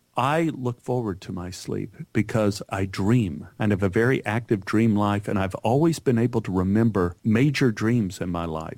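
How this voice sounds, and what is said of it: Weak Texas accent, Pennsylvania vowels. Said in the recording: “you do not sound like you're from Texas. That is the weirdest Texas accent I've ever heard ... I hear the O in your voice ... that's from Pennsylvania. So I do have a kind of not very good Texas accent.”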